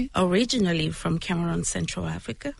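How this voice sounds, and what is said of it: Cameroonian accent. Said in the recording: “Listen to her voice. ... I love your accent too. You hear that accent? ... It's beautiful.”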